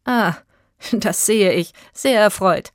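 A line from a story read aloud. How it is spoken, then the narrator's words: Laughing forester. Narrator (German): lachte der Förster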